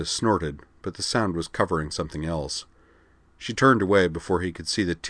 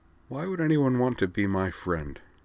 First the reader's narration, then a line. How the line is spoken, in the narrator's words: Her voice was slightly muffled by her hand over her mouth as she said